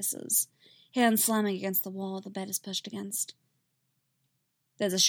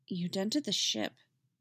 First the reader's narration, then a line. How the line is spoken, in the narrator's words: Tim says, quietly